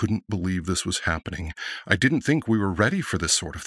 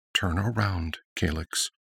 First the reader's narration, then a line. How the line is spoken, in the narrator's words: she commanded softly